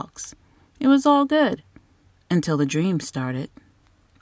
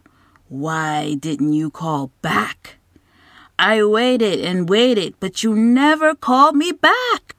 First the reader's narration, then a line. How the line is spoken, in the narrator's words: growled